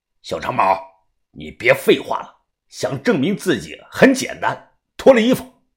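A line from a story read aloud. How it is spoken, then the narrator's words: Cold. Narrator (Chinese): 于哥冷冷的说道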